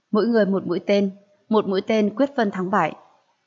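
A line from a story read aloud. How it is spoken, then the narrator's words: Smiling. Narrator (Vietnamese): Diệp Ly mỉm cười nói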